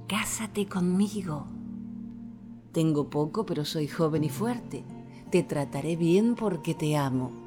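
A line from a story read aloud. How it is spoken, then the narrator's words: Whisper in ear. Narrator (Spanish): le susurraba al oído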